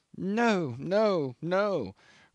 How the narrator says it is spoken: croaked the old man

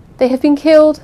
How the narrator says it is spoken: gasped

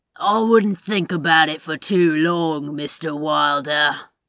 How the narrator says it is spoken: Trenchcoat sneered

